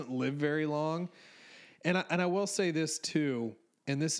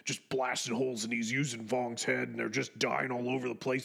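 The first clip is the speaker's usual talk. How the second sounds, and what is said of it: Imitates another person's voice. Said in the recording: “in my Alex Jones voice”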